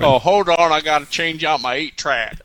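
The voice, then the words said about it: Florida redneck Southern accent. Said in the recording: “Where's that accent from? ... That's Florida redneck. That's what that is.”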